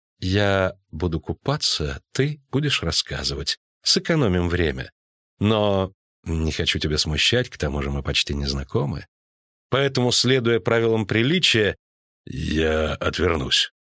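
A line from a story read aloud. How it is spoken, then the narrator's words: Unsure offer. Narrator (Russian): неуверенно предложил он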